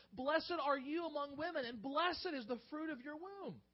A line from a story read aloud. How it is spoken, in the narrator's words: Elizabeth was filled with the Holy Spirit, and she exclaimed with a loud cry